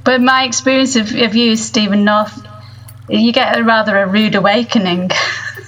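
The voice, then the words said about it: Speaks with a noticeable accent. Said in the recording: “that accent of yours”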